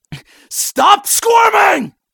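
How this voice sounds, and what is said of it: Sudden angry shout. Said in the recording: “I didn't mean to raise my voice.”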